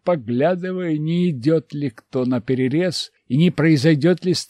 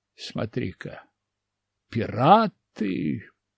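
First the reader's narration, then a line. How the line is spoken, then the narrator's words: Careful mutter. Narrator (Russian): пробормотал я аккуратно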